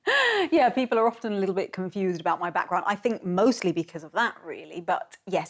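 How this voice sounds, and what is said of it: English accent. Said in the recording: “you have a beautiful English accent”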